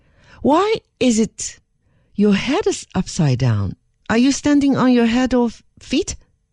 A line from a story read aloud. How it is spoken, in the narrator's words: Her Majesty exclaimed